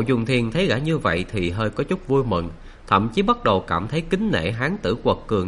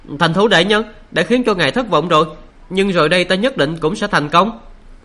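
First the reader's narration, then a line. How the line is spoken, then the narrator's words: Calm, resolute voice. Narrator (Vietnamese): Sát Đạt Mễ La lại không vì thế mà tức giận, trái lại gã vẫn cất giọng đầy kiên định nói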